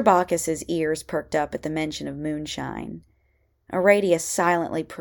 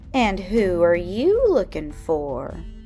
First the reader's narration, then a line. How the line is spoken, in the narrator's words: Morgenstern sneered